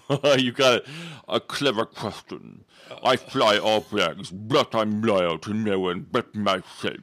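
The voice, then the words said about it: Villain character voice. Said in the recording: “That's a good villain voice.”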